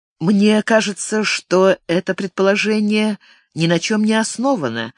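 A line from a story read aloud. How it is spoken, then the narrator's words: Soft. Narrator (Russian): мягко проговорила Франческа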